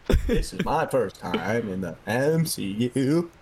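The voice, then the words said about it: Imitates another person's voice. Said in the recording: “it's like Owen Wilson talking”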